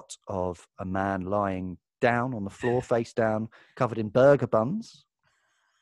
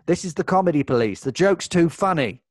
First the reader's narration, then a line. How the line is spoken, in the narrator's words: Someone bursts through the door yelling